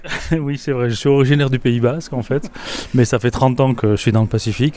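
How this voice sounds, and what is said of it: Southern French accent. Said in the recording (French): “Toujours un bel accent du Sud”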